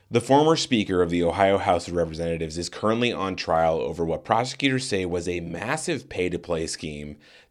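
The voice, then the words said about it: Raspy voice. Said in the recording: “apologies about the raspy voice”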